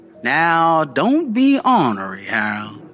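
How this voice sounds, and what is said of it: Drawling New Orleans accent. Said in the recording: “her St. Charles accent stretched now into two distinct syllables and slurred my name into one”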